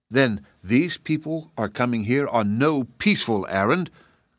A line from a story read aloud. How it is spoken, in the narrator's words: declared Rugido, scowling fiercely